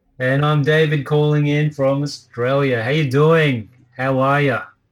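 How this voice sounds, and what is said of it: Strong exaggerated Australian accent. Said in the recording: “such a really strong Australian accent that you just put on”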